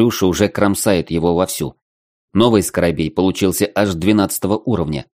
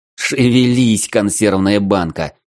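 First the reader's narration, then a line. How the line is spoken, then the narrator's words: Hoarse croak. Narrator (Russian): хриплю я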